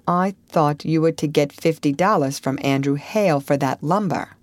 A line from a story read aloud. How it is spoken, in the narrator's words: Zena said in a level voice